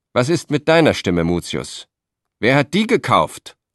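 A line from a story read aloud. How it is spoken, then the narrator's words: Roaring. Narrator (German): brüllte er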